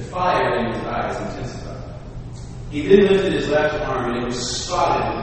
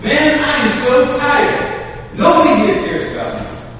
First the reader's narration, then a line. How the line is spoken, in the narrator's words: he shouted at me